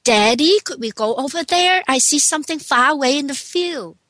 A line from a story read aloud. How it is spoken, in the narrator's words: Tommy said